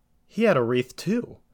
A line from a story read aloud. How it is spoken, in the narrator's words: Jesse exclaimed